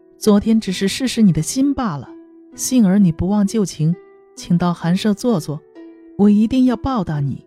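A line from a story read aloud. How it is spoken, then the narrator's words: Laughing. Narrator (Chinese): 颠当笑着说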